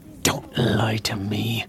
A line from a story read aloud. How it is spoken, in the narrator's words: Snape hissed